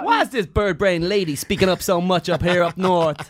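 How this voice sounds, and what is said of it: Bad put-on accent. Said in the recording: “Your accent is a tragedy.”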